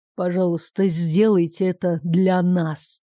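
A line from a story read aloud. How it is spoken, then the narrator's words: Purring. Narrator (Russian): почти промурлыкал он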